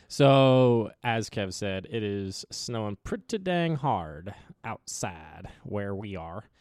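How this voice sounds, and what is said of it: Put-on Southern accent. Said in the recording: “I don't know why I'm in southern accent right now”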